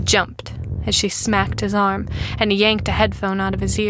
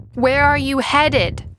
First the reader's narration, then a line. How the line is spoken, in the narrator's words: repeated loudly